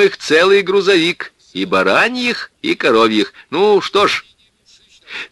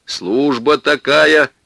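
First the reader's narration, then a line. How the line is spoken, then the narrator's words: Stern, smiling watchman. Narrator (Russian): строго улыбнулся сторож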